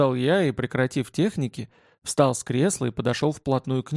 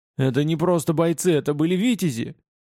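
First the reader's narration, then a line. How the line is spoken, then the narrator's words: Hurt, childlike shout. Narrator (Russian): с какой-то детской обидой крикнул мне в лицо Лутков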